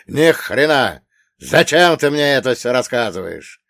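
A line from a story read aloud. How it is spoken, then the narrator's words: Gruff growl. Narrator (Russian): рыкнул Рики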